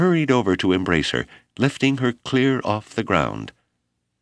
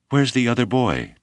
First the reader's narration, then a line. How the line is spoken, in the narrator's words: Nuktsin finally gasped